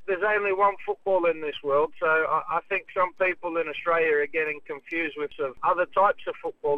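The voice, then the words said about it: Slight English twang. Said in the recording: “slight English twang to your voice”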